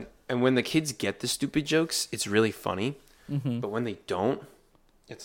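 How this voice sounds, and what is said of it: Usual voice. Nothing is said of it.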